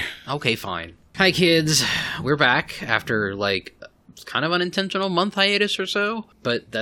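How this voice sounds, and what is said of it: Usual voice. Nothing is said of it.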